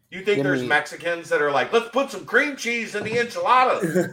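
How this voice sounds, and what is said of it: Put-on Texas accent. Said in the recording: “I did that in a Texas accent.”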